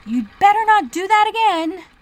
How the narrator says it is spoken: said to herself, and shouted

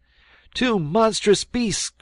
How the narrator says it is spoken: cried he

